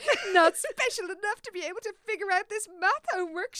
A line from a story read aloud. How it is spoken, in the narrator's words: she giggled